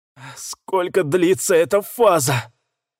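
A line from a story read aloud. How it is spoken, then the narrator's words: Forced, strained words. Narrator (Russian): с трудом выдавил я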